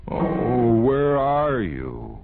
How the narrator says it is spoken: LaSalle cried in a mournful voice

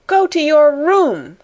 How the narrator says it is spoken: cried Miss Minchin breathlessly

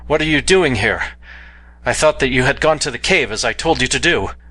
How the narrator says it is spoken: I cried

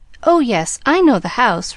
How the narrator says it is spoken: replied the literal Pollyanna anxiously

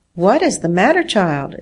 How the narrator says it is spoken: exclaimed her aunt, in alarm

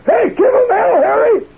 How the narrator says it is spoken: Truman when he was attempting to get reelected, and he was hollering such epithets as

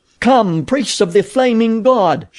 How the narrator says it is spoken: she cried

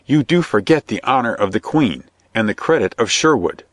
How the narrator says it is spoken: cried Robin entreatingly

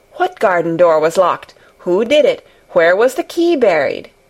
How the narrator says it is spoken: he exclaimed, as if he were suddenly very much interested

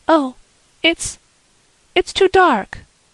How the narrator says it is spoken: cried Anne

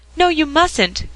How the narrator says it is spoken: cried Dick

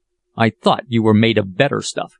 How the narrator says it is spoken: continued the captain angrily

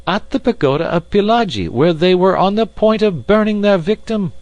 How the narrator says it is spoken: cried Passepartout warmly

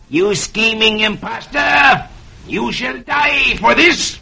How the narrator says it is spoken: Curzo snarls

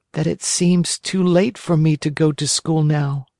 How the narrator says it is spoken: whined the marionette in a whisper

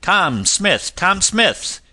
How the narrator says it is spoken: cried out

